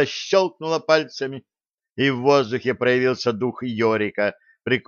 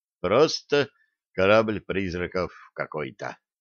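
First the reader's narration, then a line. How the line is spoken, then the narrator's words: Dejected sigh. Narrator (Russian): удрученно вздохнул Блад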